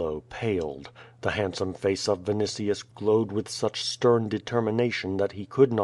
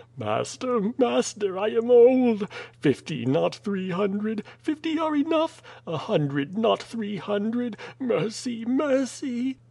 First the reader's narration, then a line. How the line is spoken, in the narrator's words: Chilo cried, with deathly pallor in his face